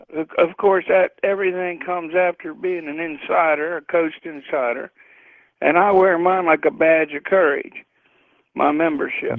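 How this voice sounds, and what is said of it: Tired-sounding voice. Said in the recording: “You sound tired. ... I am a little on the tired side”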